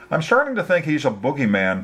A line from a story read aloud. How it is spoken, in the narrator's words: Tricia laughed